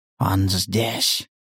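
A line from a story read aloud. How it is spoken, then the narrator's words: Whispering. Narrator (Russian): прошептал охотник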